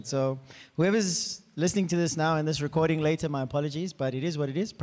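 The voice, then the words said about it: Hoarse, strained, nearly lost voice. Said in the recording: “My voice is gone. I was actually doing well this morning until worship, and then the voice just went.”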